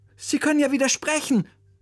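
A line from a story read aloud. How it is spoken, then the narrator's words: Call. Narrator (German): rief Oliver seinem Musiklehrer zu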